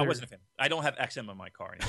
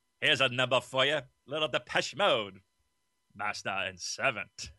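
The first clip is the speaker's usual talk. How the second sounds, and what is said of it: Robotic British DJ voice. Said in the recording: “my Richard Blade imitation? Pretty good, right? ... That's terrible. ... I sound like a robot now. ... Robot British accent.”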